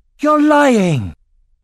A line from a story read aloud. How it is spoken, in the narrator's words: cried Aragorn